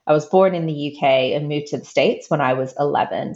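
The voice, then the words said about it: Mid-Atlantic British-American accent. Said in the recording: “my accent. It's stuck in the middle of the Atlantic somewhere.”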